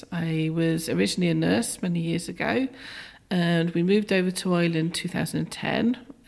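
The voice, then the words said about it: British accent. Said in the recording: “that's not a local accent ... I'm from the UK originally”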